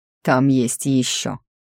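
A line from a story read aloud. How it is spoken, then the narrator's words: Taciturn grumble. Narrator (Russian): проворчал немногословный Мунк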